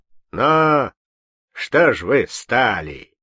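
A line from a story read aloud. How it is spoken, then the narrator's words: Menacing bass. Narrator (Russian): сказал пан грозным басом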